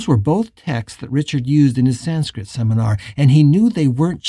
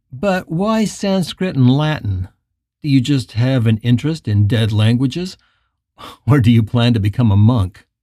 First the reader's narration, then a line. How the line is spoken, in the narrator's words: The boy laughed